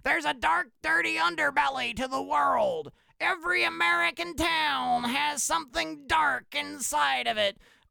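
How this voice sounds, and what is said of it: Imitates another person's voice. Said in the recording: “that David Lynch impersonation?”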